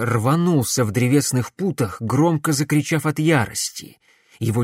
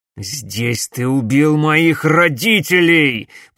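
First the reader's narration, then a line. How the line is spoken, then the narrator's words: Growled. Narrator (Russian): прорычал Макс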